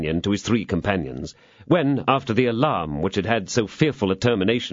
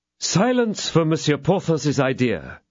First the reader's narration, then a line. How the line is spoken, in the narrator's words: cried Aramis